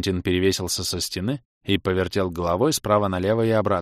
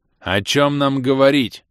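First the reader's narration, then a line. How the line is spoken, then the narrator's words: Resounding shout. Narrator (Russian): звучно крикнул Джубокс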